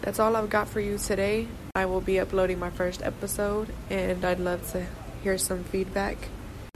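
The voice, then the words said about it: Sick, congested-sounding voice. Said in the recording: “I sound sick. My allergies are acting up.”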